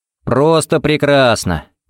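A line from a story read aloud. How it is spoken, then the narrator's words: Cheerful reply. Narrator (Russian): бодро отвечал ей Харри и совершенно не кривил душой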